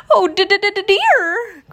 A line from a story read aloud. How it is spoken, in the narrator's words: cried Piglet